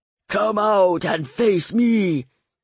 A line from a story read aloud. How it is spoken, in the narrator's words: Olga thundered